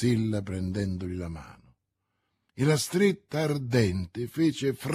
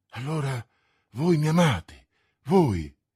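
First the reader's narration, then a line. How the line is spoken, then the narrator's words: Exclaimed. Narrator (Italian): esclamò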